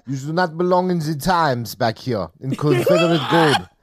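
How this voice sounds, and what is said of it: JCVD impression with French accent. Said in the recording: “You got to do it like JCVD, who is always playing an American with a French accent.”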